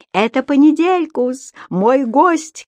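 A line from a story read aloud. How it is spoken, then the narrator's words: Shout. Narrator (Russian): крикнул господин Пепперминт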